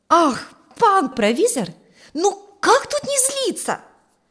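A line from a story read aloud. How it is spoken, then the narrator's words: Exclaiming, near tears. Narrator (Russian): воскликнул чуть не плача ученик Ферка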